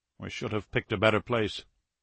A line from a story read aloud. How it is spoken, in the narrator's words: Alexeyev muttered